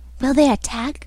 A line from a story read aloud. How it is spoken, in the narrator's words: whispered an odd voice